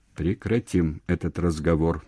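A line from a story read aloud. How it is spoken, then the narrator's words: Very dry, aunt. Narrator (Russian): совсем сухо сказала тетка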